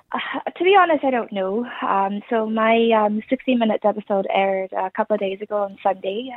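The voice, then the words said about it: Irish-sounding accent. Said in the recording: “I have an Irish sounding accent”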